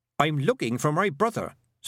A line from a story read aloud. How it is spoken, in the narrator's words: said Tiffany sharply